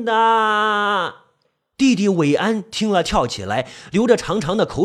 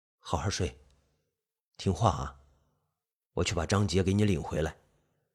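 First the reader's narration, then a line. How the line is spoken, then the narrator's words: Soft, gentle. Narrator (Chinese): 韦岩轻声的说道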